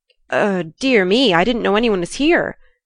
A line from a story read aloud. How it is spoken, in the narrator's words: stammered Jo